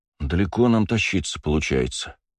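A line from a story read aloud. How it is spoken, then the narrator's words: Muffled sigh. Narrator (Russian): вздохнул Макс, кутая нос в широкий шарф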